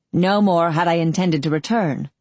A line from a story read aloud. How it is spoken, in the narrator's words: Forder grunted